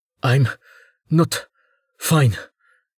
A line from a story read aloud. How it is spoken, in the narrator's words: Gen gasped